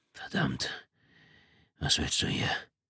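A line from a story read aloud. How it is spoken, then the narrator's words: Husky groan. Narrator (German): stöhnte mit belegter Stimme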